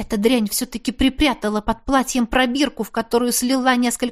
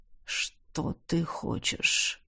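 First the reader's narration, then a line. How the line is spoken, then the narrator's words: Barely audible rustling whisper. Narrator (Russian): Едва слышно прошелестел император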